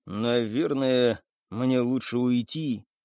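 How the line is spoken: Dejected sigh. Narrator (Russian): понуро вздохнул жирафа

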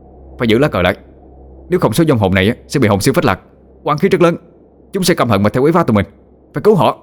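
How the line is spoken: Shouting. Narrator (Vietnamese): Chánh Địa hét lên

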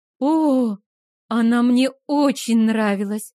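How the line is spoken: Breathless. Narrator (Russian): выдохнула я

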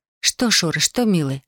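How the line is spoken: Whispering. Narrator (Russian): шептала она

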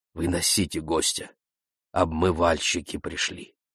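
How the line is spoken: Said softly. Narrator (Russian): негромко сказал

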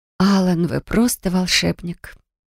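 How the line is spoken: Grateful breathy. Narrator (Russian): выдохнула я благодарно

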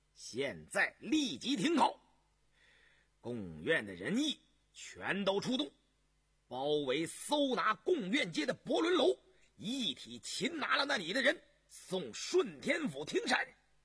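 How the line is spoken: Sharp stern voice. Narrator (Chinese): 杨明石厉声道

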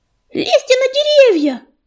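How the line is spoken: Shrill shriek over barking. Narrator (Russian): завизжал ежевика, надеясь, что друзья услышат его даже сквозь оглушительный лай

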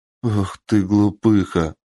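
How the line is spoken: Sobbing, joyful laughter, frightened woman. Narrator (Russian): То всхлипывая, то вздыхая от радости и смеха, перепуганная женщина

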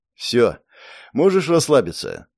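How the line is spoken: Tired. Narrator (Russian): устало произнес

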